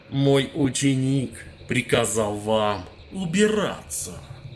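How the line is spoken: Growled. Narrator (Russian): рыкнул Медик

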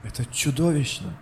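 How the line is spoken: Breathless exhale. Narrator (Russian): выдохнул Кадгар

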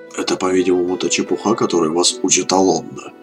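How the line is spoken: Grumbled. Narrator (Russian): буркнул Медив

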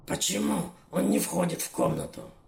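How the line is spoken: Hissing. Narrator (Russian): Гарона прошипела

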